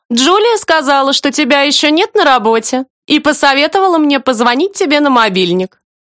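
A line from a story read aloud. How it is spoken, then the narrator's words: Cheerful declaration. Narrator (Russian): бодро заявляет она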